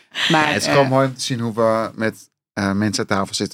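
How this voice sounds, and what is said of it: Speaks Dutch with a foreign accent. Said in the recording (Dutch): “je mooie accent”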